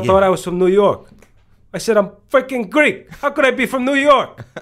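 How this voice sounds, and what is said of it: Greek Cypriot accent. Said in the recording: “You do a great Greek accent, though. ... I do a good Cypriot accent. ... Greek Cypriot accent.”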